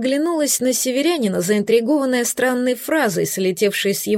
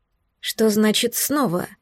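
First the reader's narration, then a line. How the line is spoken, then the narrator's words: Quiet question. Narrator (Russian): спросила тихо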